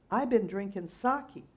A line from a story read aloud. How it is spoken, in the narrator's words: the laborer bellowed back